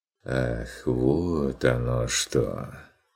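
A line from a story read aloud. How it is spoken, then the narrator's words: Drawn-out, smirking. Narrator (Russian): протянул фон Вегерхоф с усмешкой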